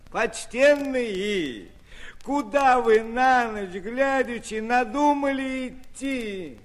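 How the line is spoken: Witch asking, laughing. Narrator (Russian): Спросила, засмеялась ведьма

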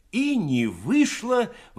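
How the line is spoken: Exclamation. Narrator (Russian): воскликнул Кабанков

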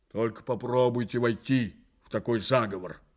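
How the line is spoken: Menacing reply. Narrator (Russian): грозно отвечал

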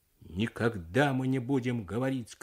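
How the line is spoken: Shouted. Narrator (Russian): крикнул Смогул

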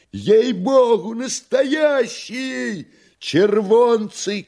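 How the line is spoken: Joyful shouts from gallery. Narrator (Russian): кричали с галерки радостно

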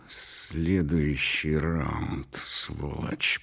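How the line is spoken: Hiss in ear. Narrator (Russian): прошипел он мне в ухо

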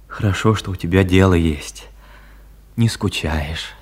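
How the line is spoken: Tender, unfamiliar voice. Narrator (Russian): ласково, голосом, какого она еще не слышала от него, сказал

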